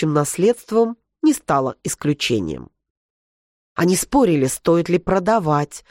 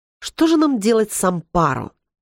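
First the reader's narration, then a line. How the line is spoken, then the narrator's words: Irritated singing, several voices. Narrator (Russian): раздраженно запели ее сестры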